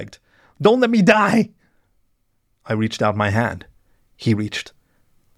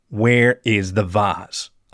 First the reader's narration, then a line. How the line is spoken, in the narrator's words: I asked Toby firmly